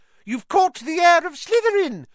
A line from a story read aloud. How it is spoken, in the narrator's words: squealed a girl on the Ravenclaw table